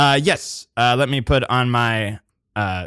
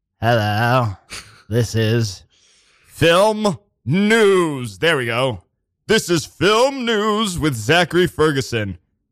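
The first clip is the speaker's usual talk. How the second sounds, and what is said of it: Put-on news announcer voice. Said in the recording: “film news voice”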